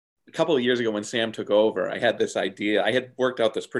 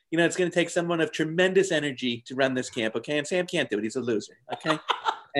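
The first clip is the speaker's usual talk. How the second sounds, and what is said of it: Donald Trump impression. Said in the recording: “pretty good Trump impression”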